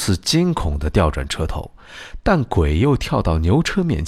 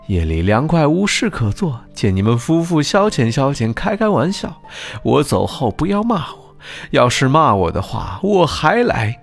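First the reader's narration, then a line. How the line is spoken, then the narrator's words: Ghost, laughing. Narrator (Chinese): 鬼笑道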